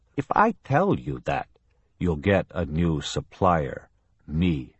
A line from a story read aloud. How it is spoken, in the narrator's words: Kelly said